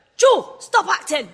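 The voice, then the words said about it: Bad put-on Scottish accent. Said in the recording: “that's my really bad Scottish accent”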